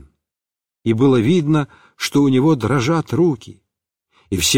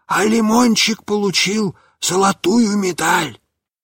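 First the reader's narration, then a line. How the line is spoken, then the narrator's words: Even hoarser voice. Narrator (Russian): сказал я еще более сипло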